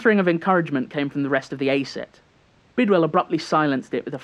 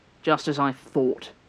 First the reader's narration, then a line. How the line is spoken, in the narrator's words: Bidwell spat